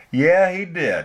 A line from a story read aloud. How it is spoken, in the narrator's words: she said slowly